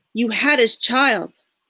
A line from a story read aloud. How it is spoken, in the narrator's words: I hollered